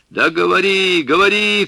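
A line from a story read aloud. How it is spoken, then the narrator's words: Old man shouting. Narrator (Russian): крикнул дед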